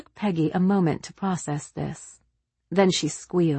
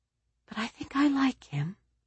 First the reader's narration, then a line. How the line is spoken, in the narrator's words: she said in a small voice